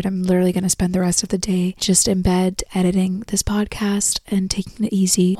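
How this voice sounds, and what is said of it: Weak, strained voice from illness. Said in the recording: “sorry for my voice. ... I know that this might be a little bit more difficult for you guys to listen to. I don't have my voice this week. You're sick like me.”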